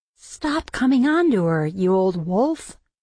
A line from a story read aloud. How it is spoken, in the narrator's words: Felix laughed